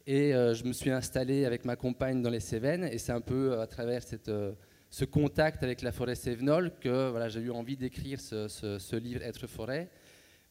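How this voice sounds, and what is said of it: Belgian French accent. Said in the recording (French): “je suis belge, hein, comme vous l'entendez de par mon accent”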